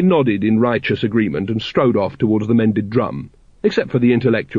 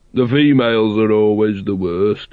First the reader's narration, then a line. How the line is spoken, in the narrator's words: said another hunter gloomily